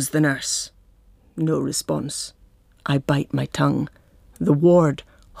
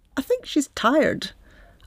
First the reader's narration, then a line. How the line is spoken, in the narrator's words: I hazard again nervously in a squeaky voice